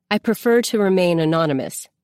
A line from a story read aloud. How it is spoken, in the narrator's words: the man says